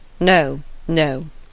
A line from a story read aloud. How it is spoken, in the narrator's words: he gravely replied